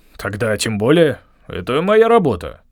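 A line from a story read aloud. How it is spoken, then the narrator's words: Grumbling mutter. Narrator (Russian): пробурчал Ригберт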